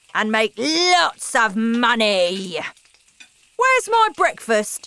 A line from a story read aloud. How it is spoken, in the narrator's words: said loudly